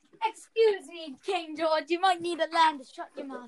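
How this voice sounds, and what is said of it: Poor put-on English accent. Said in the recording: “You guys suck at talking in English accent ... I'm speaking in an English accent”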